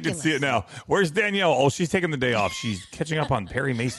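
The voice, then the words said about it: Sarcastic mocking tone. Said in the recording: “I can tell you're being sarcastic, and you're making fun”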